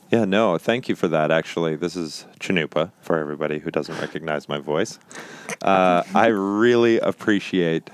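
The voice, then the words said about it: Deep dulcet radio voice. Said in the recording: “radio voice ... You get dulcet tones. ... Yes, it moves down an octave.”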